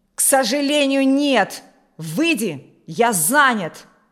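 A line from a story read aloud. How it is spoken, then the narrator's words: Shouted. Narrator (Russian): закричал Алексей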